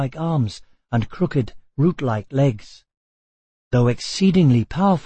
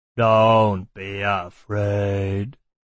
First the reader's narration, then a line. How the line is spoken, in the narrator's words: said the one who was walking on his hands, and his voice sounded like the groaning of a tree